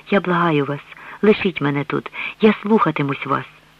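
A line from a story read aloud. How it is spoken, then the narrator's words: Defeated whisper. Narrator (Ukrainian): переможена, простягаючи до нього руки, прошепотіла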